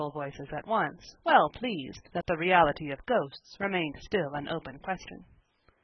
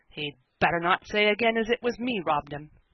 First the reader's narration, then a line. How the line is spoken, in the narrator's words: cried Jem Rodney hastily